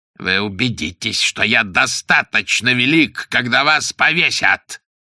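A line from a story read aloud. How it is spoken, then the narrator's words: Hoarse, vicious rasp. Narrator (Russian): прохрипел он злобно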